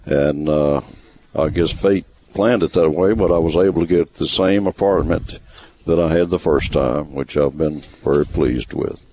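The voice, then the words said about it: Great radio-quality voice. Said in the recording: “you have a great radio voice. I'm listening to your voice, I'm thinking, man, I pale in comparison to that voice that you have.”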